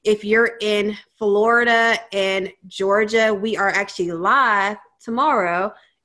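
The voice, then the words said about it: Regional accent slips through. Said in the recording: “my accent came out live. Totally just came out.”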